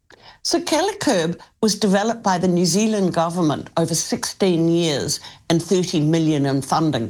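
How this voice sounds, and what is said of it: Noticeable accent. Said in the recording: “I love your accent”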